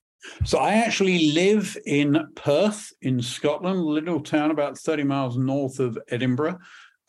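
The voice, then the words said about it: British accent. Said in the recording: “from my accent, I am not a Native American. I'm actually British. ... Yeah, I heard the accent.”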